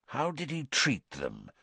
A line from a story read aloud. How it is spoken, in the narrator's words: Moody asked quietly